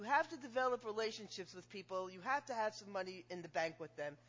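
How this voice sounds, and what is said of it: Jewish American accent. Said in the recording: “if you've listened to my accent, you listen to my voice, I'm obviously Jewish”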